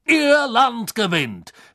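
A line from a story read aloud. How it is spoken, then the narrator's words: Surprised exclamation. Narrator (German): rief Backman, der offenbar wie die Iren vom plötzlichen Ende des Spiels überrascht worden war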